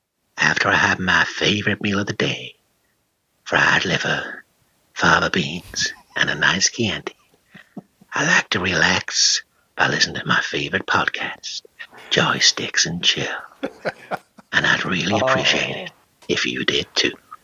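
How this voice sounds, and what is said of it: Imitates a sinister film villain's voice. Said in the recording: “channeling his best Hannibal Lecter ... my bad Anthony Hopkins impression”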